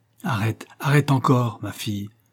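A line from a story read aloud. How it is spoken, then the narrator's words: Cold repetition. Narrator (French): répéta froidement Madge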